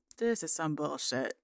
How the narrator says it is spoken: mutters

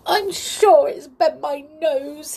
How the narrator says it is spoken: he sobbed

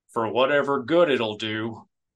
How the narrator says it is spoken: Han grumbled

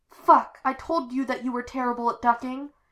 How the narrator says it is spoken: he cried

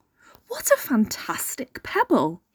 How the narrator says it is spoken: he exclaimed

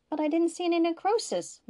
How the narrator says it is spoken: Maxine exclaimed

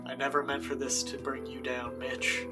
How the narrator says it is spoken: muttering to myself

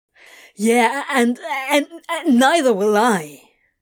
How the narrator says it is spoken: Crowley spluttered

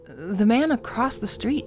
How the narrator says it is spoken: she stammered

